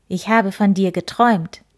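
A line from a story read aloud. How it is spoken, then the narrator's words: Plain. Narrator (German): sagte der Igel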